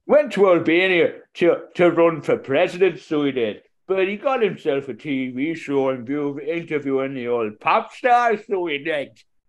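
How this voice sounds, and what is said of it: Put-on Scottish accent. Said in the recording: “losing my accent now. ... When did you go to Scotland?”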